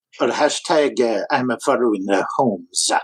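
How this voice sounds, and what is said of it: Put-on French accent. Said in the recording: “Very nice. Very ... French accent ... Very French. It was very cultured.”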